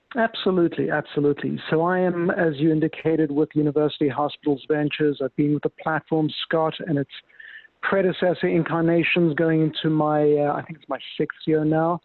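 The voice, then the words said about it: Distinctive foreign accent. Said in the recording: “the best accent you might hear today”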